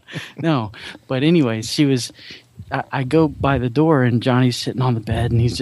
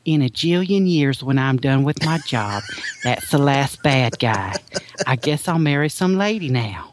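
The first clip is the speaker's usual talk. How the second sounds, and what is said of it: Imitated Alabama Southern accent. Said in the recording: “she's from Alabama, so she's got a little bit of a ... of an accent ... she's got this accent ... Not quite that much ... there is no accent like an Alabama accent”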